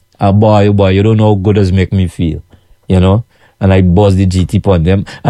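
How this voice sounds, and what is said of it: Noticeable foreign accent. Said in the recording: “where you're from originally because of your accent. You got an accent. ... we talk fast”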